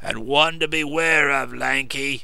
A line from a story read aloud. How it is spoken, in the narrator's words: rumbled the coachman